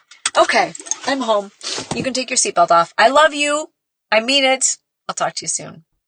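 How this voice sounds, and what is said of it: Teary, emotional voice. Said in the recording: “getting teary-eyed”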